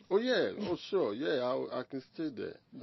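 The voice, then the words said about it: Ghanaian accent. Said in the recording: “people remind you that you're Ghanaian in the way you talk, your accent”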